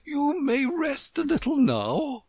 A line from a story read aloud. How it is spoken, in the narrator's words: The Queen said kindly